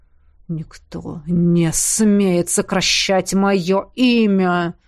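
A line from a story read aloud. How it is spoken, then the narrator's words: Growling up close. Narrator (Russian): прорычал он мне в лицо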